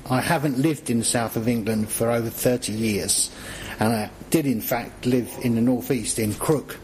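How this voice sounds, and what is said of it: Southern English accent. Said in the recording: “my southern accent”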